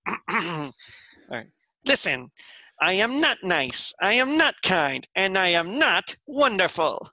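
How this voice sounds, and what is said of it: Poor Skeletor cartoon villain impression. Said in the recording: “That's terrible, okay. But that's my Skeletor. ... that was an interesting Skeletor. ... I'm not a very good Skeletor ... best worst impression”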